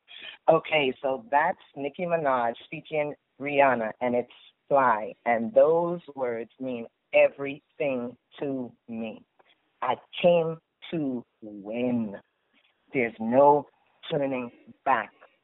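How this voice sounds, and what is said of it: Trinidadian accent. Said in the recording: “I hear an accent in there. ... I've just given you a little bit of my Trini accent.”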